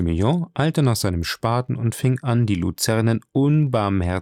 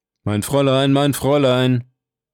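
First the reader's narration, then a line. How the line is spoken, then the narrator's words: Calling from behind trees. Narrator (German): rief eine Stimme hinter den Bäumen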